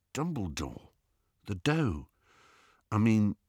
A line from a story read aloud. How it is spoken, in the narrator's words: Ron looked a little embarrassed, but said in a low voice